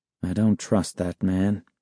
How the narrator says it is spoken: he muttered

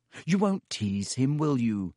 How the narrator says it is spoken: She added anxiously

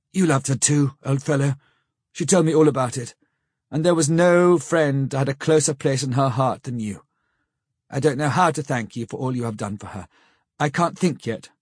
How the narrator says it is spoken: saying huskily

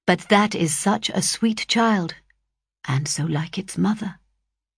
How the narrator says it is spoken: he added in a lower tone

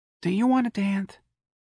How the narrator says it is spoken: asked wistfully

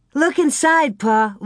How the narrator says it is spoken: Laura cried

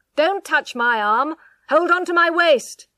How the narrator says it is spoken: he shouted

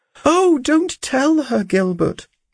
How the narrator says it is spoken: cried she

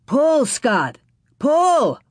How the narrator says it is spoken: Pa yelled

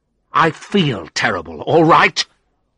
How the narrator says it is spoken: I replied angrily

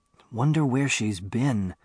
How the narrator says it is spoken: Bando whispered

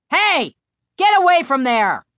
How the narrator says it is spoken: the angry operator shouted through the high window

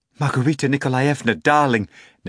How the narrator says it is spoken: Natasha pleaded

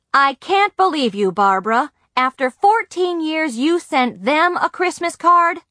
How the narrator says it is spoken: My father hollered

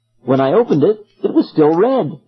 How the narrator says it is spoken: Thalia exclaimed

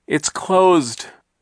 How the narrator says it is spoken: Klaus cried, his voice rising with despair and in order to be heard over Hurricane Herman

